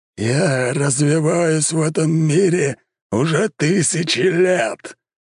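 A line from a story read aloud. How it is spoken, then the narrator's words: Giant roaring. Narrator (Russian): взревел здоровенный аватар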